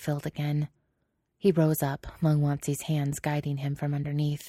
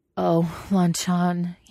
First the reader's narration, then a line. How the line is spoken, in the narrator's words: he moaned